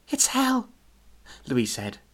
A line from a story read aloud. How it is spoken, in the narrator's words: her throat still croaky